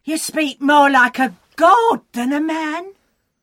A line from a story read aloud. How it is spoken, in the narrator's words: The people shouted